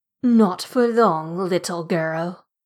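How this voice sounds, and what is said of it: British-ish accent, ogre voice. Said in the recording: “When the ogre spoke, it was with a British-ish accent.”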